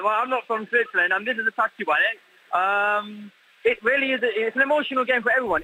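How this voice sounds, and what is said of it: British accent. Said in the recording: “as you can hear from my accent, I'm British”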